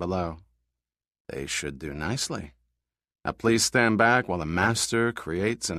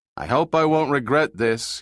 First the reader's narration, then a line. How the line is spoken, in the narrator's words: he shouted over the roar of the fans